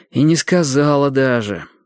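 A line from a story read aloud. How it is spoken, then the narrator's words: Bitter sigh. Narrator (Russian): горько вздохнул Лодька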